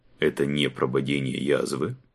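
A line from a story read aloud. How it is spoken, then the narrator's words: Restrained, detached tone. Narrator (Russian): произнес граф, сдержанным, отвлеченным тоном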